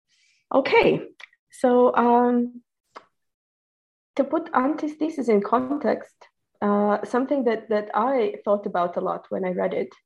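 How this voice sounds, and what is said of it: Voice weakened by illness. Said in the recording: “I'm a little bit ill today, so I'm sorry if my voice is not up to scratch.”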